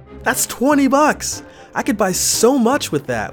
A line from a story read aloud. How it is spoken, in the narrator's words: we all yelled